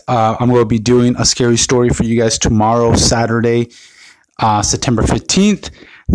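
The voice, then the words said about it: Slightly raspy voice. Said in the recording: “I've been a little bit under the weather. My voice has been a little raspy”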